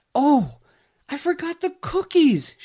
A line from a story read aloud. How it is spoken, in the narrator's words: shouted